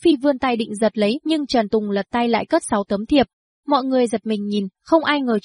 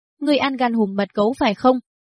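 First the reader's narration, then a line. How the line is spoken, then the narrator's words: Angry question. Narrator (Vietnamese): Hứa Phi tức giận trừng Trần Tùng, hỏi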